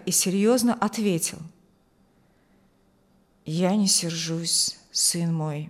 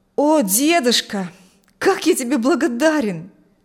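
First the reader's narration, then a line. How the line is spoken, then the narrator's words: Exclaiming. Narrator (Russian): воскликнул Адам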